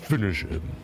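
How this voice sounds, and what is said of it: Deep announcer voice impression. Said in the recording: “In the really deep voice? ... That's pretty good. ... That was accurate.”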